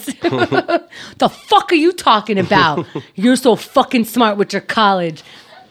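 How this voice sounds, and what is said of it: Strong New York accent. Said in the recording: “how much my New York accent comes out”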